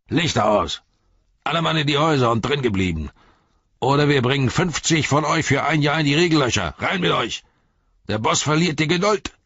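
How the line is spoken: Group bellowing. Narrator (German): brüllten

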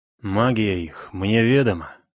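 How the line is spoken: Grim, menacing. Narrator (Russian): настолько мрачно и грозно вымолвил отец дружин

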